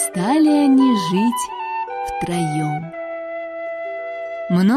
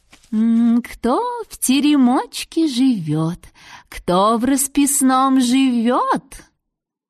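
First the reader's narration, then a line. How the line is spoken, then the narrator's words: Gentle. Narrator (Russian): она ласково говорит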